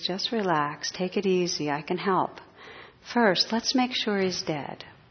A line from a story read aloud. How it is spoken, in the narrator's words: The operator, in a calm, soothing voice, says